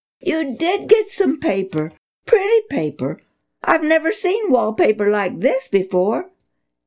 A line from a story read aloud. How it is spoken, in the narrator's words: Cotisson cried